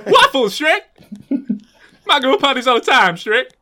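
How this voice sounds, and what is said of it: Imitates another person's voice. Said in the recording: “You've been desperate to do your Eddie Murphy impression, haven't you? ... It's pitch perfect. It's spot on.”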